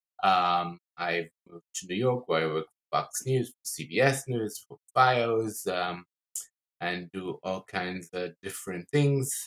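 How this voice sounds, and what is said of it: Speaks with a non-American accent. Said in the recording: “hence my accent”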